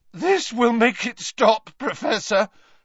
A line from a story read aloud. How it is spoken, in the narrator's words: Harry said, his voice cracking